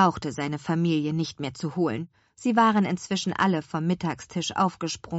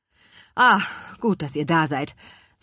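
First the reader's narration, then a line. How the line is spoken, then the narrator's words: Husky, choked voice. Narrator (German): sagte Herr Kuchenbrand mit belegter Stimme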